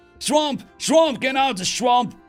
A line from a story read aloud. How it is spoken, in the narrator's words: came a thunderous roar of voices and song